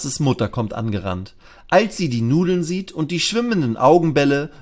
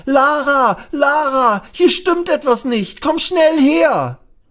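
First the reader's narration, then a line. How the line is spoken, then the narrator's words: Loud cry, calling out. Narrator (German): schreit er laut auf und ruft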